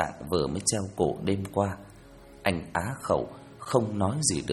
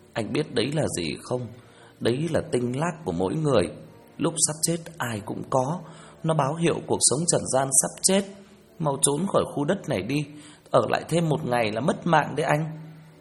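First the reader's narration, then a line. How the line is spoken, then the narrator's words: Weeping. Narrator (Vietnamese): Vợ Sinh khóc lóc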